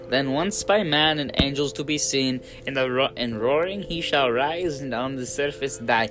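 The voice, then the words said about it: Reading slips into Russian accent. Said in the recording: “That hurt my voice. ... Towards the end, I started sounding Russian.”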